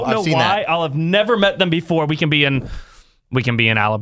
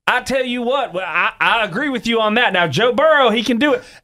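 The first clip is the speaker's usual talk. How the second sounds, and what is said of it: Put-on Southern accent. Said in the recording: “Southern accent ... You're making it sound stronger than what it is.”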